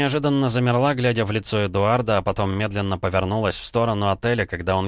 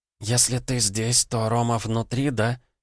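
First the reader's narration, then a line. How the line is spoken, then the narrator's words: Whispering. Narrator (Russian): шепотом произнесла она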